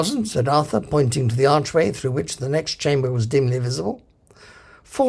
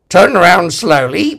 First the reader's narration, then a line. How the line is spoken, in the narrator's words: barked a voice